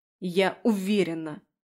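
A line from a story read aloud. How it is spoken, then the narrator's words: Irritated confirmation. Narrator (Russian): подтвердила раздраженно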